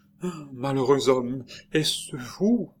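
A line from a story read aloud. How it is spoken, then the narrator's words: Stammering. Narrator (French): balbutia-t-elle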